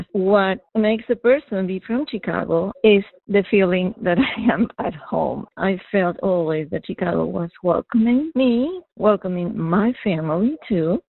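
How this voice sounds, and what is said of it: Non-local accent. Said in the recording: “you may infer by my accent that I'm not a local 100%”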